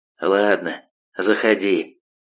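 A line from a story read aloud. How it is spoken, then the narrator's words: Mumbling. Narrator (Russian): бормочет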